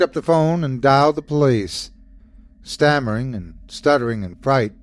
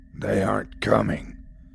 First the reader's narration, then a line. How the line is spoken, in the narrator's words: growled the voice